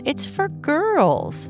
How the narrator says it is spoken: Bernice said with a laugh

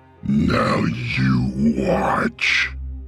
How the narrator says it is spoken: Vivian said in a terrible voice

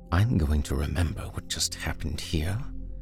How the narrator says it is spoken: he whispered

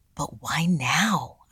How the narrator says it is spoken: I whispered back

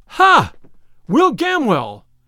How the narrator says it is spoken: cried Robin

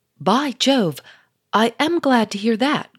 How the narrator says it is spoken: cried the Duke

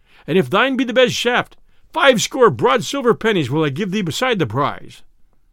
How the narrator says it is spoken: cried the sheriff

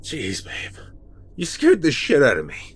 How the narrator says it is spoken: I said, beginning to laugh

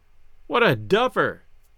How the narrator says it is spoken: Gus cried

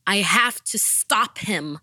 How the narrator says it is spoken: I shouted

